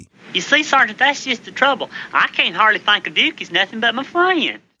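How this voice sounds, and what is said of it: Exaggerated rural hick accent. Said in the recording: “Little muddy sound before the E. C. That's his quote-unquote hick accent.”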